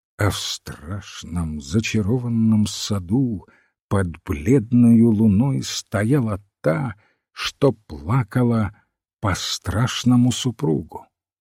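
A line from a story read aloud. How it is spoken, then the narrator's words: Muttering. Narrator (Russian): бормочет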